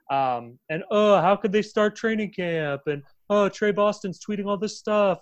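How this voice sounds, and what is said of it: Exaggerated imitation of own voice. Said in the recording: “doing an impression of myself from last episode”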